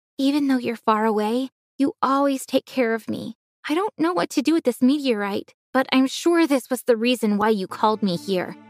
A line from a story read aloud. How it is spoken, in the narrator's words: I said